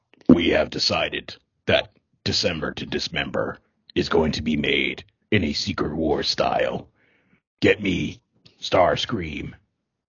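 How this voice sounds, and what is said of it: Optimus Prime character voice. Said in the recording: “you do an Optimus Prime voice? ... in that voice”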